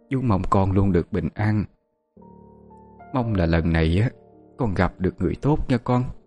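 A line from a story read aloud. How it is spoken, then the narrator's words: Choked with emotion. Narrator (Vietnamese): Chú ... nghẹn ngào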